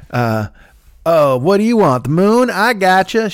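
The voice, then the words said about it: Exaggerated folksy country accent. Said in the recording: “She's got this bad cornpone accent she probably doesn't really have, but she's putting it on for the commercial”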